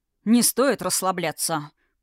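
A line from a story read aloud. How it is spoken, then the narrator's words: Said through teeth, restrained. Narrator (Russian): процедил, пряча эмоции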